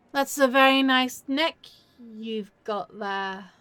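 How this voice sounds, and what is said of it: Mock scary vampire voice. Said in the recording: “I can be terrifying ... tap into my scary vampire self”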